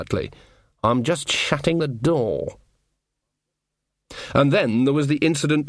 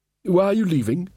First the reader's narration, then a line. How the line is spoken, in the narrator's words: said Verence nervously